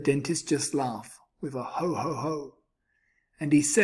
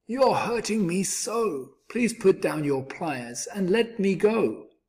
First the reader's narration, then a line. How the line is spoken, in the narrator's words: the crocodile cried